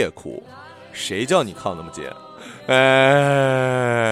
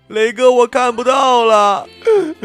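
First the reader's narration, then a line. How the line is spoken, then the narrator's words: Crying out. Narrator (Chinese): 小马哭喊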